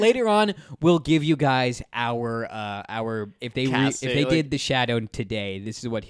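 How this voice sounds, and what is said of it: Usual voice. Nothing is said of it.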